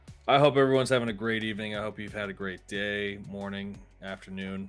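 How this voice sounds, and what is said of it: Usual voice. Nothing is said of it.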